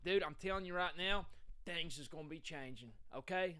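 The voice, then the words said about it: Put-on Philadelphia accent. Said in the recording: “Gotta do the Philly accent.”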